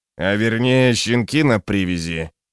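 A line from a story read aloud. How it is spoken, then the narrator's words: Gruff mutter. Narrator (Russian): буркнул Гловард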